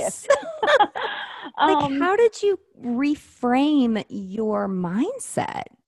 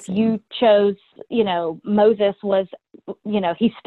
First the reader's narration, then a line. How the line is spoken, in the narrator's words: he stuttered